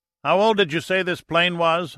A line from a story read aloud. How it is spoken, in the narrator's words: Austin shouted over the cockpit noise from the single engine